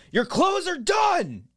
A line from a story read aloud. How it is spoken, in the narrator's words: yell it out